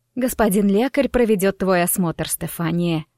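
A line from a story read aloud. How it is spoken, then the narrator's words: Affectionate. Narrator (Russian): Так ласково сказала матушка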